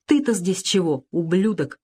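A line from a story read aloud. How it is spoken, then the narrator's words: Angry question. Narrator (Russian): зло спросила Лена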